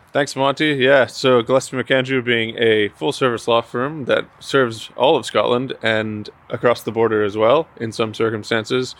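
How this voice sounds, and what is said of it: Canadian accent. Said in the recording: “as you can tell from my voice, I'm not Scottish myself. I'm from Canada”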